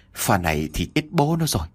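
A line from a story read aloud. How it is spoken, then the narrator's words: Muttering while running. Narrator (Vietnamese): Vừa chạy, ông Vũ vừa lẩm bẩm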